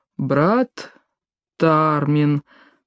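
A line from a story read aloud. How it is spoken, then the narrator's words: Repeated. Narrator (Russian): повторил стражник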